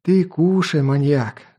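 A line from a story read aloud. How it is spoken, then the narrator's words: Sighing. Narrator (Russian): вздохнул меломан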